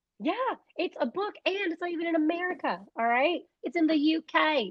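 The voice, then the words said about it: Weak put-on British accent. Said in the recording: “that was my British accent. It wasn't that great”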